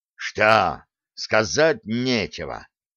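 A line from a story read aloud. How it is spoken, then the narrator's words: Growl. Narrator (Russian): прорычал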